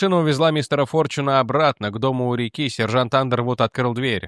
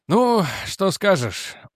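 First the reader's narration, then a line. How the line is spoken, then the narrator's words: Tired smiling tone. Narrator (Russian): устало улыбнулся Реджи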